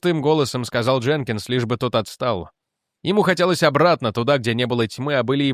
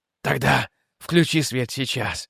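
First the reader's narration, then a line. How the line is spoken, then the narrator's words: Hoarse echoing demand. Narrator (Russian): потребовал Мастерс хрипло, и его голос эхом пошел по кораблю, будто он стоял сразу в нескольких местах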